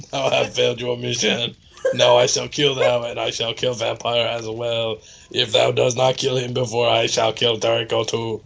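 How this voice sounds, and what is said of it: Raspy evil voice, French robotic. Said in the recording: “said evilly in his raspy voice ... Why is he French? And a robot.”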